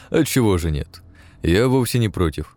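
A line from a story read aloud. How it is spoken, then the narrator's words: Cheerful chuckle. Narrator (Russian): хохотнул весело Шереметьев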